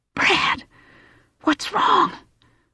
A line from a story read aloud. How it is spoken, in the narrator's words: Johnny whispered from above him